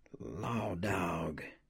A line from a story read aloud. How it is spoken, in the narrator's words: said Melvin softly